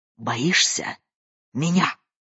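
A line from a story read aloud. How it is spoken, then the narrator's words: Hoarse question. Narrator (Russian): хрипло спросила она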